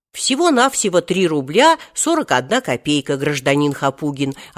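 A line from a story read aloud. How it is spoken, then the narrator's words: Plain. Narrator (Russian): ответил продавец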